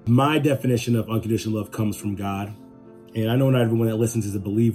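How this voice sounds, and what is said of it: Slightly raspy voice. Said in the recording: “my voice sounds a little raspy, ... I'm kind of getting over a cold”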